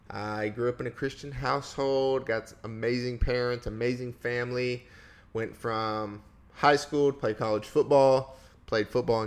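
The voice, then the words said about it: Southern Tennessee accent. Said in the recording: “I'm a Tennessee boy, if you can't hear from the voice. Not a Californian. So, a little different... Accent.”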